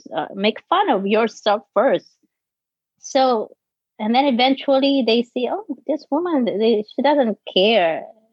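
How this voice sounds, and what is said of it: Filipino accent mixing B, P, F. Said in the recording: “imagine I'm from the Philippines. My B, my P, my F, they mix up ... I know my voice, my accent”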